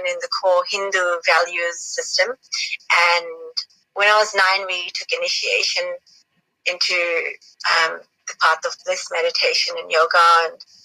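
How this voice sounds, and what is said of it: Mixed accent, not purely Australian. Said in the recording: “your accent is a mixture. It's not pure Australian.”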